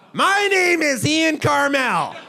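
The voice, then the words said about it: Impression of Ian Carmel. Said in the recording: “can I hear your impression of me again?”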